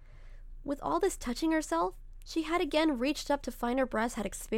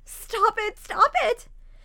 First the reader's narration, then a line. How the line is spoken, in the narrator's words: wailed, pressing her hands against her ears